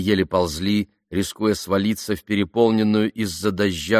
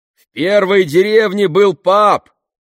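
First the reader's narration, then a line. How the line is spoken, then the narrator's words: Shouting back. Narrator (Russian): крикнул в ответ Бен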